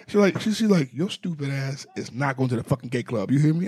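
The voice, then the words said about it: Put-on Haitian accent. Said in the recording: “A little Haitian accent.”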